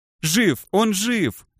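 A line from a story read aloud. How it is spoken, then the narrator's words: Joyful yelling. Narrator (Russian): радостно завопил Юпсик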